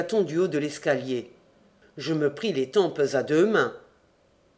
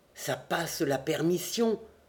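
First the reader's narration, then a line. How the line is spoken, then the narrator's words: Murmured. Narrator (French): murmurai-je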